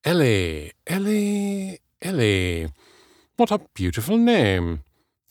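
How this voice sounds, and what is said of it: Smooth, elegant British accent. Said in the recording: “His voice was smooth, elegant. ... British ... Of course he had to have a British accent.”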